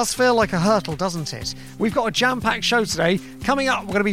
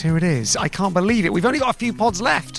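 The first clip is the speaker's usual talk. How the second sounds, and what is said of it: Mock serious voice. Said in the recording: “I'm doing my serious voice.”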